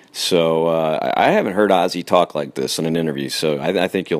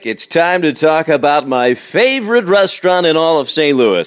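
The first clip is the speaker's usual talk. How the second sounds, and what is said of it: Put-on performing voice. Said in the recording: “I don't know why I'm putting on a voice.”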